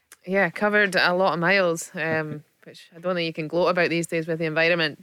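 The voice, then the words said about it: Aberdeen Scottish accent. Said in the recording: “Aberdeen twang”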